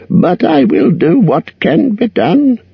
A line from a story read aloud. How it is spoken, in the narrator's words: croaked Roak